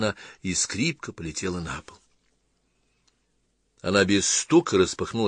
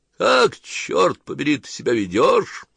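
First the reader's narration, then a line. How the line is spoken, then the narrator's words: Father barking angrily. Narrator (Russian): гаркнул ее отец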